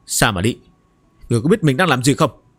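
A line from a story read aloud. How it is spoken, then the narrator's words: Cold, grieved anger. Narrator (Vietnamese): với vẻ mặt sầu não và tức giận, lạnh lùng nói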